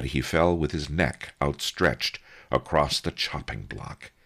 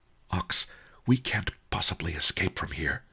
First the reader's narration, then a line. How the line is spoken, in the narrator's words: he whispered